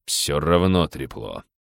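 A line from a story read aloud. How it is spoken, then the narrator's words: Stubborn grumble. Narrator (Russian): упрямо проворчал начальник охраны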